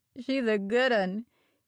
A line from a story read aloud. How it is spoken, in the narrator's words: he sneered